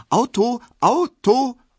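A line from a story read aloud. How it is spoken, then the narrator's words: Very bright, loud voice. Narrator (German): sehr hell, laut und selbstständig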